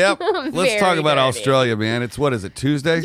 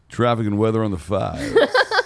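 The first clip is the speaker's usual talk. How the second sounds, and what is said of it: Radio announcer voice. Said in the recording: “she very, very much loved ... voice ... Said that you have a great radio voice.”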